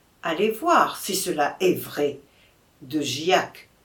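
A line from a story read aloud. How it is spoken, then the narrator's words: Plain. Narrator (French): dit le duc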